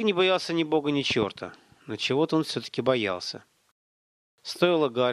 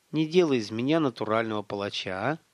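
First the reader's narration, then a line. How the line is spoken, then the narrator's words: Sighing. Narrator (Russian): Олег вздохнул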